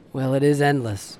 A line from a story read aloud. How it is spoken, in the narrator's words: I said, my voice empty from exhaustion